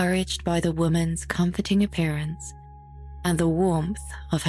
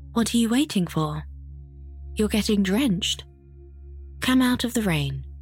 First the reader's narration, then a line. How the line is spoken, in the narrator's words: the woman said kindly